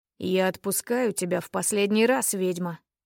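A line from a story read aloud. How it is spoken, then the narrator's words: Duke's hoarse voice. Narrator (Russian): охрипший голос герцога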